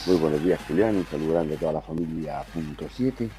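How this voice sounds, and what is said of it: Congested voice from a cold. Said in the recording (Spanish): “Yo un poco resfriado por aquí con voz de locutor de radio.”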